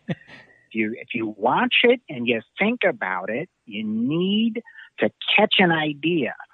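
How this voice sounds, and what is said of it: David Lynch impression. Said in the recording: “for a while I was doing David Lynch, and you know, he talks very much like this.”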